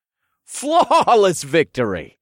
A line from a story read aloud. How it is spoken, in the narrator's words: laughed